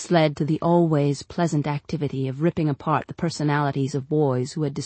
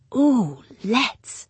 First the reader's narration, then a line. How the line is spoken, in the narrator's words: breathed Sarah Charlotte